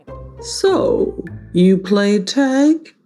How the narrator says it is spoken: let out a little chuckle and said

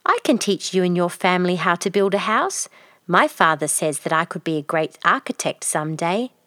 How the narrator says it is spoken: said Kaushik

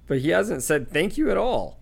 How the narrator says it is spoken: said Hestia indignantly

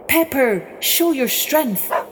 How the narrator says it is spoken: he cried out

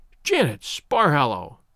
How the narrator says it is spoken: she cried

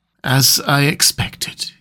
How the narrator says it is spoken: he murmured, with that hissing inspiration of his which meant so much

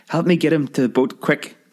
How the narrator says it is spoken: cried the ancient half-sister

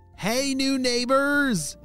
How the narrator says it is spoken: shouted Vienna

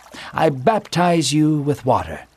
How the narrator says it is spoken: John said calmly

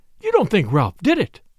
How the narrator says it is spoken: cried Flora

